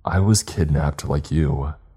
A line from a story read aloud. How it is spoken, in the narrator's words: he said through a sigh